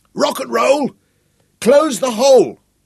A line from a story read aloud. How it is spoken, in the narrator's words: bellowed Sapper